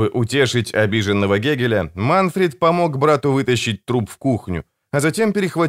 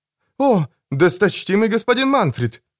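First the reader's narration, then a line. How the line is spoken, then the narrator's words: Exclamation. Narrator (Russian): воскликнул Альгасур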